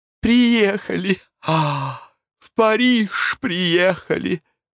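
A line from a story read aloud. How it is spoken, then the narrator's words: Joyful. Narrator (Russian): радостно произнесла Глафира Семеновна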